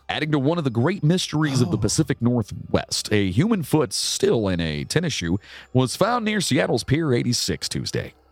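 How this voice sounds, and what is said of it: Newscaster voice, non-regional diction. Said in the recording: “That was a good news voice. ... you have to have that non-regional diction.”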